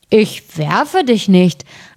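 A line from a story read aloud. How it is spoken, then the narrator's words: Grumbling answer. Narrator (German): antwortete der Erste und brummte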